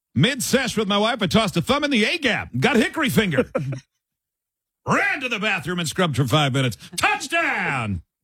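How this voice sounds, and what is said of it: Sportscaster voice. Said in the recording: “say it in your sportscaster voice ... It sounds like something that you would say during a football broadcast”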